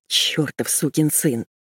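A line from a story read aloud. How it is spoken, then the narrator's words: Mumbled. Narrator (Russian): пробормотала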